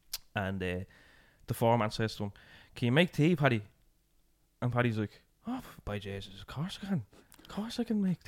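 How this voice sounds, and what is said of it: Put-on Irish accent. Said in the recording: “You know, the accent. ... That's a pure Irish thing”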